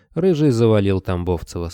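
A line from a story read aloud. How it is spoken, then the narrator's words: Calm. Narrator (Russian): спокойно сказал Кобылин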